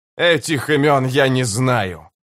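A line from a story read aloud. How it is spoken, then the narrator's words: Growled. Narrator (Russian): прорычал Карса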